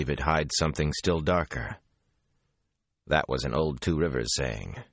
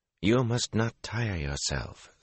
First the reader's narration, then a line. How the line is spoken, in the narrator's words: Somara said quietly